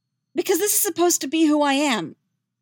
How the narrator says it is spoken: Yennefer snaps

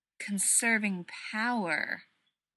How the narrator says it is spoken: Rodney says slowly

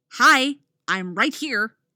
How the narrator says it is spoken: Artemis snaps

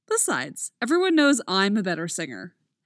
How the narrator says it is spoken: Mick says cheerfully

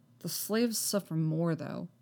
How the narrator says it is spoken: Anakin mutters, scowling

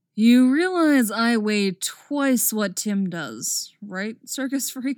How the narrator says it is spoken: Dick laughed

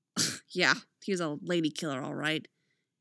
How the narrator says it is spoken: she mutters

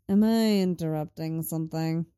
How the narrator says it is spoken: Lenny drawls from the door

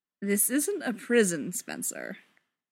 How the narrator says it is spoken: Bob chuckled

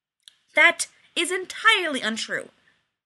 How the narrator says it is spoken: Rodney said angrily

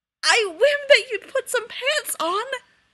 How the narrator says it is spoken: James choked out

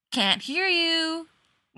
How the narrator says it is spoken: Winchester yelled cheerfully back

